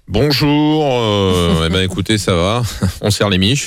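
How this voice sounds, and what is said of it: Imitates another person's voice. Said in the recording (French): “d'autres imitations”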